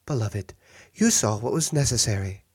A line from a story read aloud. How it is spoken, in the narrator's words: she sighed